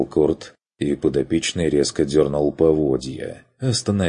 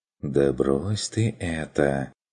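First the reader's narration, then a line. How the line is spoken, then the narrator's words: Coaxing, insinuating. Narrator (Russian): вкрадчиво произнес Ланс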